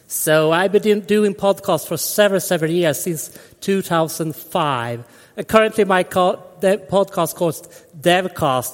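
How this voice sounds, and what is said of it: Swedish accent in English. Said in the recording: “here in Sweden, and you probably hear that on my dialect.”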